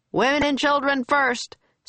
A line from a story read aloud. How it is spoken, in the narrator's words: shouted